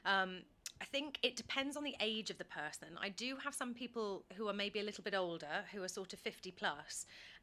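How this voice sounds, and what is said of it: Modern RP with slight Estuary. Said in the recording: “The way I would describe my accent is a sort of modern received pronunciation with a bit of estuary floating into it now after 13 years in London.”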